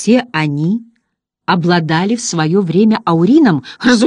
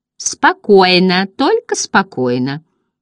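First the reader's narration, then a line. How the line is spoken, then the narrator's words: Giggling monkey. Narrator (Russian): хихикала обезьянка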